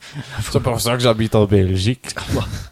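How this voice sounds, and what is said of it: Mock Belgian accent. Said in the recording (French): “tu te moques un peu de l'accent belge”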